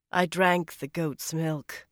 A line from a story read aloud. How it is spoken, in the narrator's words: Elaine said in a level voice, all too conscious of the guardswomen ringing the 3 of them